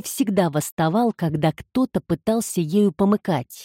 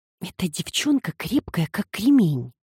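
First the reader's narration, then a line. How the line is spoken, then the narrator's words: Quiet remark. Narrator (Russian): тихо заметила Эмми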